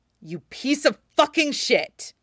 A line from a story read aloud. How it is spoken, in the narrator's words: Ilya snarls